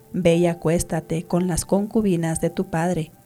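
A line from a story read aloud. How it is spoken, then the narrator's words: Plain. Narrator (Spanish): contestó Aitofel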